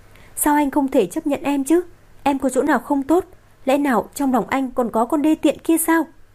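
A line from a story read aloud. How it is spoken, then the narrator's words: Choked, sobbing shout. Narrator (Vietnamese): Cô ta nghẹn ngào hét lên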